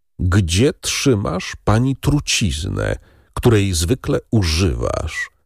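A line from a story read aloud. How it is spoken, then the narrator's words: Slow, deliberate drawl. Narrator (Polish): wycedził powoli i wyraźnie Wilfort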